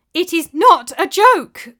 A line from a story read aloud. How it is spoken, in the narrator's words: cried Elisana in frustration